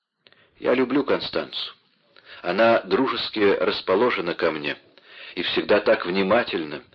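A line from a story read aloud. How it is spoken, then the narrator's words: Plain. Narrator (Russian): сказал Вольфганг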